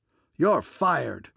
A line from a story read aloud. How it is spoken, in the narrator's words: bellowed old Blumenfield